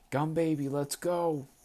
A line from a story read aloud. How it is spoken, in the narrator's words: I shouted